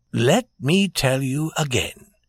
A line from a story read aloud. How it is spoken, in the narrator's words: said Prince Michael in his soft voice